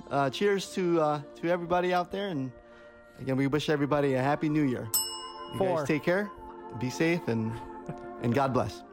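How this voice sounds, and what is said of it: Radio announcer voice. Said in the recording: “He did a whole production. I love the radio voice.”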